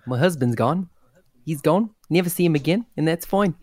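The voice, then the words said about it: Put-on South African accent. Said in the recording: “Nice accent. Yeah, it's very South African. ... Which is pretty good. A South African accent is pretty hard to do.”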